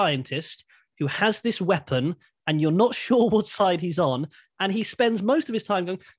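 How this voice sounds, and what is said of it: Usual voice. Nothing is said of it.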